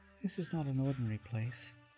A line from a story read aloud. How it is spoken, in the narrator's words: she whispered